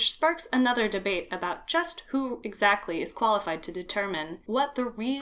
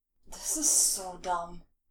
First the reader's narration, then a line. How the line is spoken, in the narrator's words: Bozy mumbles